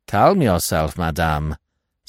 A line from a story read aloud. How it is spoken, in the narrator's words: said Giraud coldly